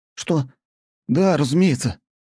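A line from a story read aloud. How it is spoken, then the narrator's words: Hurried babbling. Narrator (Russian): торопливо залопотал тот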